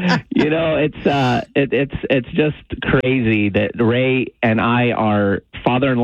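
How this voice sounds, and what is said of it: Usual voice. Nothing is said of it.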